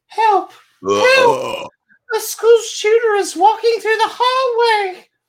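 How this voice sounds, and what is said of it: Imitated little boy voice. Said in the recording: “let me do my little boy voice”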